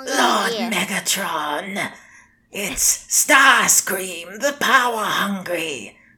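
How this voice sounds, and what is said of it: Good Starscream impression. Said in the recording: “That was actually a pretty good impression.”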